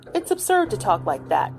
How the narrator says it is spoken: he said impatiently

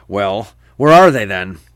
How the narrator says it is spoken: The husband finally puts down his drink and snarls

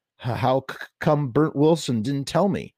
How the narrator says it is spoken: Freddie stammered

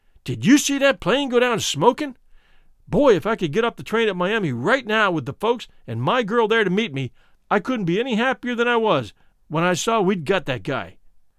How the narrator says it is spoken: he came running up to me full of steam and yelled

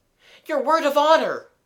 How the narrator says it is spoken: gasped Gerald

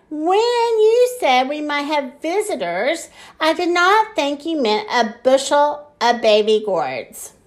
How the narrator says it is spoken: Sam cried

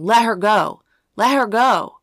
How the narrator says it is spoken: She yelled at him, shouting

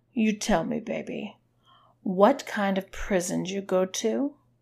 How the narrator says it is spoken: She asked in a more soothing voice

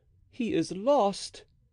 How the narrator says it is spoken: cried Blaisois

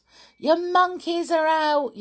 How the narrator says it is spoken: yelled the camp children

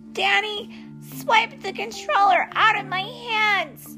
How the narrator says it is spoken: Charlie yells

